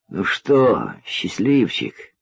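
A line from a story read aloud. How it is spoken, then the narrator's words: Barely audible question. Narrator (Russian): еле слышно спросил он Крестовского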